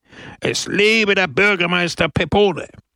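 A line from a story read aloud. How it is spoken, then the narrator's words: Crowd roaring. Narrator (German): brüllte die Menge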